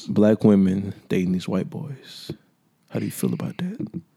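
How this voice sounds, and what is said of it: Put-on sexy voice. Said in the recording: “what kind of voice is that? ... Is that the sexy voice?”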